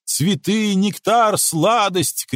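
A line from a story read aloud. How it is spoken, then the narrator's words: Bees shouting. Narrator (Russian): кричали пчелы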